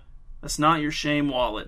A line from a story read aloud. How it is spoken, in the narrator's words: mumbled Cliff